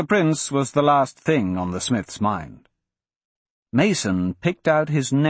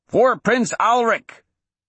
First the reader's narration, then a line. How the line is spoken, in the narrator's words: Mason heard Dixon shout